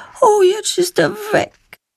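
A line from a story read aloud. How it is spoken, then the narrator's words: Sad remark. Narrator (German): stellt sie traurig fest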